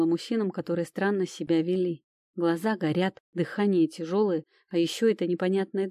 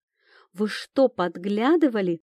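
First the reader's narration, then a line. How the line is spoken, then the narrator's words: Angry exclamation. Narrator (Russian): воскликнула гневно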